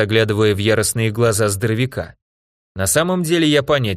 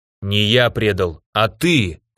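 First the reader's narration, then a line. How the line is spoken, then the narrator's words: Knight growling. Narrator (Russian): прорычал рыцарь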